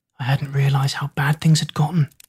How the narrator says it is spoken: Zack whispered

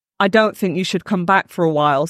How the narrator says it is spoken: said Carl

